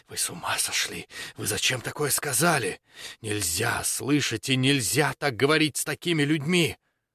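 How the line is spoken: Frightening whisper. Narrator (Russian): светочей зашептал страшным голосом

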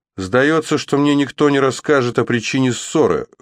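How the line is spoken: Wry snort. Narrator (Russian): хмыкнул молодой рыцарь

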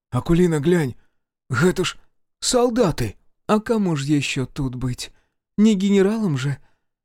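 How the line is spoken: Sad wry chuckle. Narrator (Russian): Грустно усмехнулась Знатка

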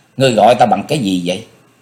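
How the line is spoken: Cold. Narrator (Vietnamese): Diệp Linh Tô cô lạnh lùng nói

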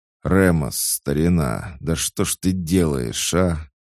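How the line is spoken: Annoyed hiss. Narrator (Russian): С досадой прошипел

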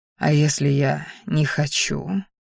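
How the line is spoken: Quiet delirious whisper. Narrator (Russian): тихо прошептал, вновь словно в бреду

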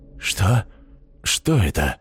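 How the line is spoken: Whisper. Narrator (Russian): прошептал инквизитор

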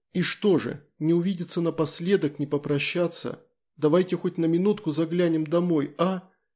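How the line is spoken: Pleading. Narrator (Russian): взмолилась Тоня

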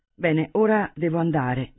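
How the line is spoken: Plain. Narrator (Italian): disse Herman

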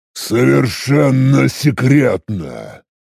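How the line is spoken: Growled. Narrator (Russian): рыкнул я

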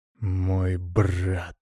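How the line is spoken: Weary anger through teeth. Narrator (Russian): процедил Владимир, и в голосе его звучал утомленный гнев

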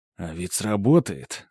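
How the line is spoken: Thoughtful. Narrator (Russian): задумчиво произносит Владимир

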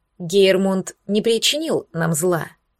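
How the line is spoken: Calm. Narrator (Russian): также спокойно сказал Эйнар

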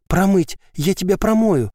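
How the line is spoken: Breathless exclamation. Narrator (Russian): выдохнула Ева

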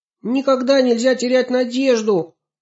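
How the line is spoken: Shouting. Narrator (Russian): крикнула Аня

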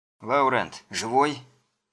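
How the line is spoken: Grumbled mutter. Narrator (Russian): Тот буркнул

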